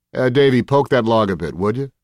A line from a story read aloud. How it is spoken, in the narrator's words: Virgil said